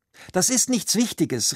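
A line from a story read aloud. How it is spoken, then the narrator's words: Quick call. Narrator (German): rief sie schnell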